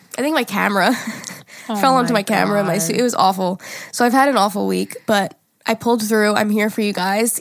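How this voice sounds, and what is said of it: Congested, stuffy-nosed voice. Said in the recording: “my voice is nasty ... So boogery and sexy.”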